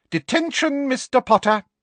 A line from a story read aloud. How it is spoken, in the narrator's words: said Professor Umbridge triumphantly